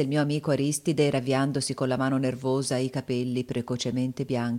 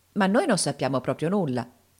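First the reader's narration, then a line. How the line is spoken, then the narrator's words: Curious exclamation. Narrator (Italian): esclamai più incuriosito di prima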